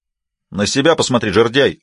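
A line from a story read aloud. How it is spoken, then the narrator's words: Snapping retort. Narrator (Russian): огрызнулся Фрэнсис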